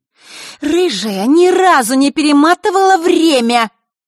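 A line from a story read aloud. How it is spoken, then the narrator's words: Angry shout. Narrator (Russian): Зло сощурившись, прокричала она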